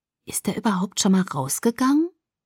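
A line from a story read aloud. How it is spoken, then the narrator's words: Muttering to herself. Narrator (German): murmelte vor sich hin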